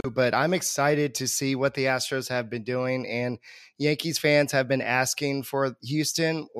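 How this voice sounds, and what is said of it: Rough voice, recovering from illness. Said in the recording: “Excuse my voice. I'm just getting over a flu”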